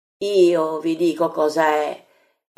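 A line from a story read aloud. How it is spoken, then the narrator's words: Exclaimed. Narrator (Italian): esclama Giacomo di Zebedeo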